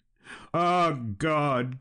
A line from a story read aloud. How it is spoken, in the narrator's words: cried Balin